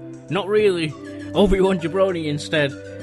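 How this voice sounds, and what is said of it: Usual voice. Nothing is said of it.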